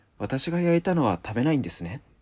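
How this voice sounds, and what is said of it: Barely audible quiet voice. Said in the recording (Japanese): “聞こえるか聞こ聞こえないかぐらいの声で”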